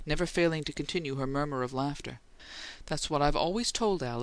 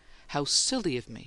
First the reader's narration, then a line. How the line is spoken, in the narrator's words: she exclaimed